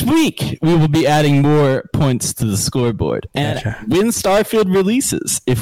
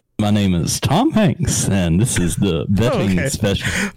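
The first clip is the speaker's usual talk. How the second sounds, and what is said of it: Put-on Southern gentleman accent. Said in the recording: “this is a Southern gentleman like I'm in Lady Killer”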